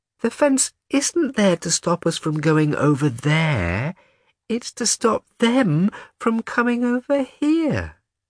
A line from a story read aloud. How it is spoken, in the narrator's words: she said in a childish voice, as if this was the most obvious thing in the world